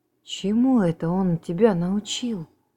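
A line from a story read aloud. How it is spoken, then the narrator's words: Astonished exclamation. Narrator (Russian): изумленно воскликнул Бейтман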